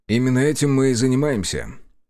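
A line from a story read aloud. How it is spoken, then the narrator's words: Mild agreement. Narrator (Russian): кивнул я, не желая ворчать на нее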